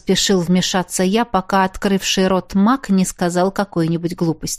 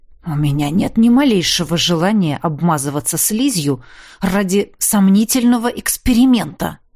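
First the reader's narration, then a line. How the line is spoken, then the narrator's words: Grumbling mutter. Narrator (Russian): буркнул Огрис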